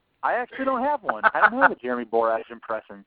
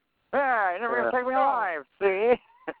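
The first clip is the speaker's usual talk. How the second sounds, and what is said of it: 1930s movie gangster voice. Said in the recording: “It's more like an actor from the 30s. ... It's a 30s gangster.”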